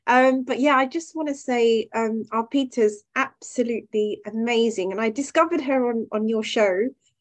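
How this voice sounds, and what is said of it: Slightly hoarse, sore-throat voice. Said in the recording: “I have a little bit of a sore throat,”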